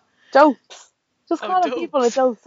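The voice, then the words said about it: Poorly imitated accent of another person. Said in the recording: “I tried to do his accent, which is pretty terrible. I'm from Dublin, so I probably shouldn't try that ever again.”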